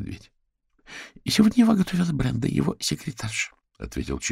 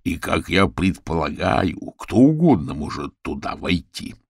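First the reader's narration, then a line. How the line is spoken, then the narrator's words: Growling. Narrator (Russian): прорычал Орвилл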